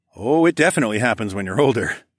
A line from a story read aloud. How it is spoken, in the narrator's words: I chuckled